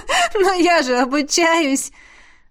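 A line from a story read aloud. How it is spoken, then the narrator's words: Ringing laughter. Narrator (Russian): Заливисто рассмеялась Беата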